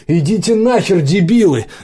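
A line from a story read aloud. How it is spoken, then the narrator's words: Shouting. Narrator (Russian): закричала Дашка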